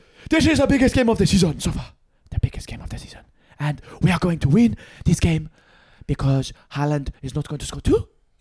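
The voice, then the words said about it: Impression of Pep Guardiola's accent. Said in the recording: “Pep got his predictions for Man City Newcastle ... I'm not really sure where this accent is going.”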